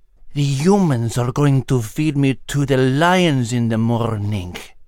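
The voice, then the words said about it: Whispered cat voice, Greek accent. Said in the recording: “the astonished cat whispered with a Greek accent.”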